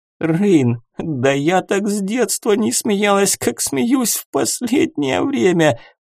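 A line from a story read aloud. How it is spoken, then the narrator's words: Moaning. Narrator (Russian): простонала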